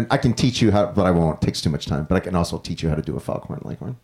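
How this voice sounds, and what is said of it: Usual voice. Nothing is said of it.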